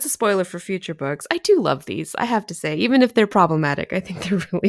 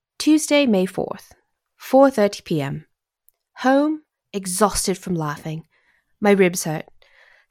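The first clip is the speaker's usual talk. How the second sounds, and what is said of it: Put-on British accent. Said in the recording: “I'm going to try to do this in a British accent, but we'll see how this goes.”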